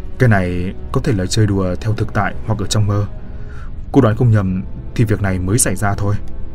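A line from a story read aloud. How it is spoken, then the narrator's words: Sighing. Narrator (Vietnamese): Cô Ngọc thở dài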